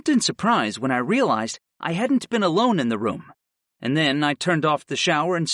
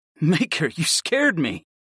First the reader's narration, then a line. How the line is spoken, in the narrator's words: I admitted with a laugh